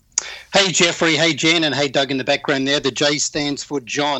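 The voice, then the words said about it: Australian accent. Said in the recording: “He's come all the way from Sydney, Australia. ... all-around guy with an accent ... you are a foreigner, and everyone knows that by your accent”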